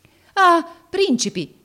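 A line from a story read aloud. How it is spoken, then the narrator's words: Surprised exclamation. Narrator (Italian): esclamò egli nel vederli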